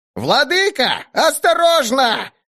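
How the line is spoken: Goblin yelling. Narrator (Russian): завопил гоблин

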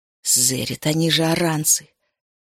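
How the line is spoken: Hiss. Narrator (Russian): прошипела она

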